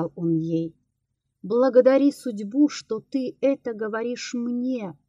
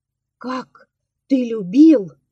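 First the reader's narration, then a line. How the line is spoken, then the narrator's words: Exclamation. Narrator (Russian): воскликнула она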